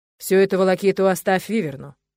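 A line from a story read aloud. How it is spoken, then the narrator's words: Father's stern voice. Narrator (Russian): строго сказал отец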